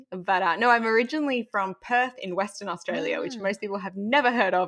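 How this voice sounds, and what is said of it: Mild Australian accent. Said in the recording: “I think I'm rapidly losing my Australian accent, but I am originally Australian ... I think I'm somewhere in the middle”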